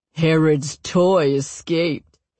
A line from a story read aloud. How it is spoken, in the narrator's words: he sneers